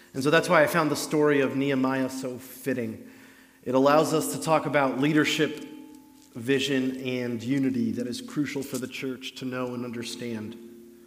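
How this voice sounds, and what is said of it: Very loud speaking voice. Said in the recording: “I know my voice is very loud.”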